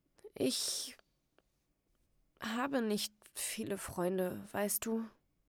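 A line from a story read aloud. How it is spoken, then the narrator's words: Sad, insecure. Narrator (German): traurig, ja unsicher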